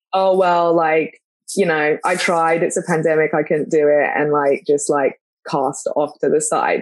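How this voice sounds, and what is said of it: London English accent. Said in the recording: “my accent ... being from London”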